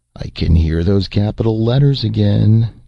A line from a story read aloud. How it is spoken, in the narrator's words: Jason groaned